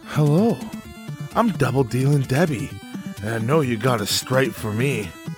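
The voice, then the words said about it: Sultry, seductive put-on voice. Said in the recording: “do my sexy voice?”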